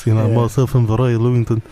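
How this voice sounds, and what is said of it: Impression drifting into South African accent. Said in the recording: “does a really good Roy impression... for 3 seconds and then it becomes South African... It turns very South African.”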